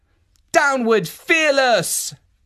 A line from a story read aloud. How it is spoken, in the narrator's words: shouted